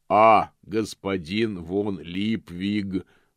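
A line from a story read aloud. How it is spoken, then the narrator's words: Booming. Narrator (Russian): прогремел господин Помпа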